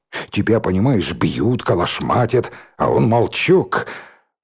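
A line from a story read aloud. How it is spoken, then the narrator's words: Indignant groan. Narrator (Russian): Он так был возмущен, застонал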